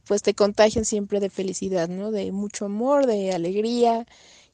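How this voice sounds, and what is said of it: Mexican Spanish accent. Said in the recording (Spanish): “qué acento más bonito de culebrón ... Qué bonito es el acento mexicano ... es encantador ese acento”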